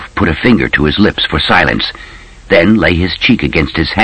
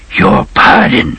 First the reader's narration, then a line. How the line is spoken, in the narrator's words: the postman whispered